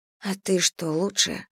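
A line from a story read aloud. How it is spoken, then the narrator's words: Quiet inner whisper. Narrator (Russian): прошептал тихий голосок в ее голове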